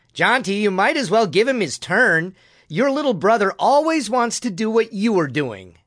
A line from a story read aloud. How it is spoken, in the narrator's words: Eck yelled from his perch in the apple tree